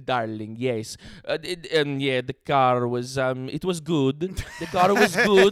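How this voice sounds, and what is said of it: Attempted Italian accent. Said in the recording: “what's an Italian accent? ... I can't even do it.”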